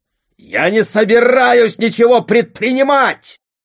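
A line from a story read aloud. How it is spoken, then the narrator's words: Father shouting. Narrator (Russian): крикнул отец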